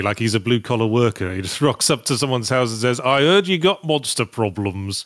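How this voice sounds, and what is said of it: Speaking in his natural accent. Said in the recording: “You've been using your natural accent more and more.”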